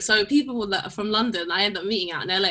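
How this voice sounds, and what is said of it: British London accent. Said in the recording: “your British accent has to be kept”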